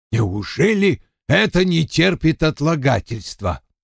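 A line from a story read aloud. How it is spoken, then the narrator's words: Angry mutter. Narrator (Russian): сердито буркнул Вульф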